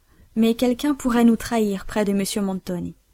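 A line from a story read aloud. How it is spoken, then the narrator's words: Sad. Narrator (French): dit Émilie tristement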